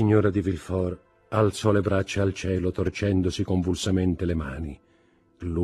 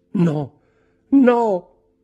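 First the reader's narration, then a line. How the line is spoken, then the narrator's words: Shout. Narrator (Italian): gridò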